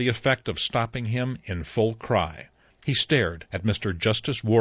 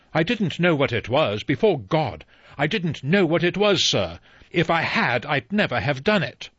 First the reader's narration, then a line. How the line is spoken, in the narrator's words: Rogers cried